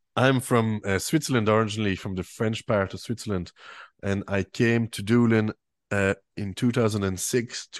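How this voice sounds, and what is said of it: French Swiss accent with Irish tinge. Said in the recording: “they might have an inkling of a little accent ... I have a French Swiss accent, as they call it, French Swiss Claire accent”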